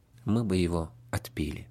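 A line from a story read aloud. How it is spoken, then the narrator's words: Calm reply. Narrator (Russian): отец-наместник спокойно ответил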